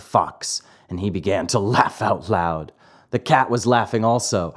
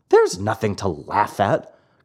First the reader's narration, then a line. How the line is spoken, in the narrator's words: cried Pinocchio angrily